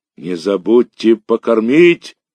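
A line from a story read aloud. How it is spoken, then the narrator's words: Shouting after. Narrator (Russian): кричал вслед нам Мишка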